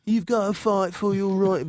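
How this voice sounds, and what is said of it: Put-on British accent, fairly convincing. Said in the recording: “that's a pretty good British accent”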